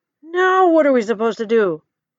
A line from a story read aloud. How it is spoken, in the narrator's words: exclaims T-Hog